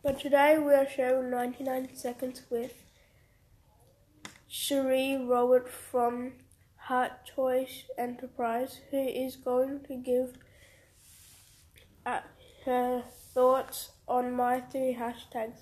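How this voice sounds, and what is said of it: Voice strained by sore throat. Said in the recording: “Excuse my voice because I have a sore throat.”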